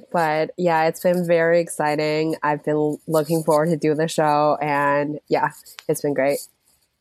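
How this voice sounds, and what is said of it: Sick-sounding voice. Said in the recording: “my voice is a little bit like sick because of the weather”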